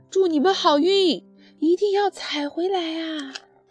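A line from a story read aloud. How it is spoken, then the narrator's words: Group shouting. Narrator (Chinese): 他们喊道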